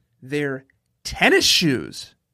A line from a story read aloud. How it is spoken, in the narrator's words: I shouted back